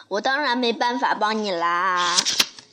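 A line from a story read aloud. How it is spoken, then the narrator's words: Laughing. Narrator (Chinese): 颠倒小姐笑着说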